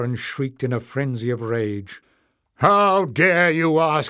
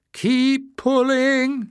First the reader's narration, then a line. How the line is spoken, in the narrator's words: shouted